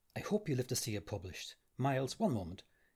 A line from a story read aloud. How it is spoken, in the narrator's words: Malloy said quietly to Stephen